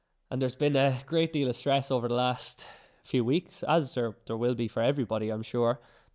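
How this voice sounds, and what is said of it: Slightly sick-sounding voice. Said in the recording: “you might be able to hear in my voice, I'm a little bit sick”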